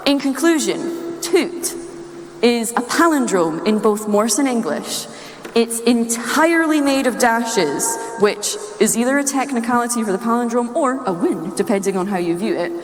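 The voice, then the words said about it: Scottish accent. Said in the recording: “as you've noticed by the accent, I am Scottish”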